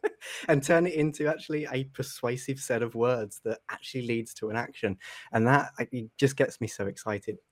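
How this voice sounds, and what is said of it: Southern English accent. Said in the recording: “You can probably tell by the accent, I'm not from America. I'm from the UK on the South Coast.”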